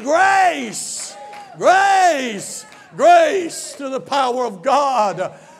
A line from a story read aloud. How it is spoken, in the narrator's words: yelling